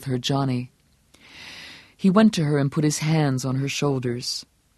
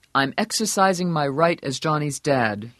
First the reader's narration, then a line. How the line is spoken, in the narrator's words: he said grimly